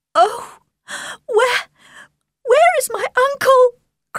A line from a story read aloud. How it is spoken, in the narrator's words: cried Elizabeth